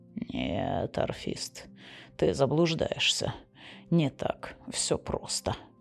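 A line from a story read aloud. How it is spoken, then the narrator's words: Muttered. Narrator (Russian): пробормотал Флар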